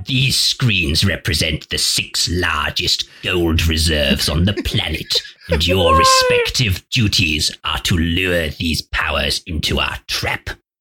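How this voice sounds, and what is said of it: Strangled sinister villain voice. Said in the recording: “doing a fucking Palpatine voice, which is so good”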